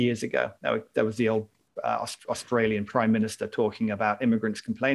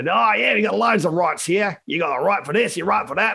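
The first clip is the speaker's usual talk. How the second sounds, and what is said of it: Put-on Australian accent. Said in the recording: “That's my Australian accent.”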